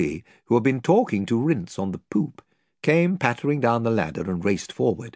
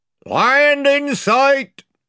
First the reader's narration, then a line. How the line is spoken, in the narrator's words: shouted the man in the bows